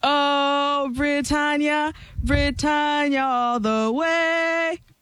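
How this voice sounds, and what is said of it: Limited put-on British accent, singing. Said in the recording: “The only thing that's more limited is her British accent.”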